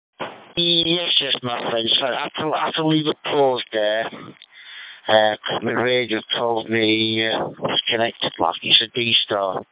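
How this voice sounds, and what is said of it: Yorkshire accent. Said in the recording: “I take it that's a Yorkshire accent, is it?”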